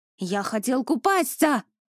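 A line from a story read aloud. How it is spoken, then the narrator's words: Defeated man shouting, broken Russian. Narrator (Russian): На ломаном русском языке закричал поверженный мужчина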